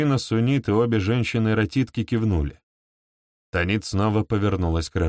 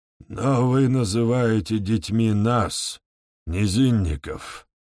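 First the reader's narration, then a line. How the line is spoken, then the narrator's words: Hoarse wheeze. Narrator (Russian): прохрипел Домиск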